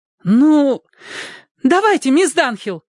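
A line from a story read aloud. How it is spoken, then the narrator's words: Girl's exclamation. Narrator (Russian): воскликнула одна из девушек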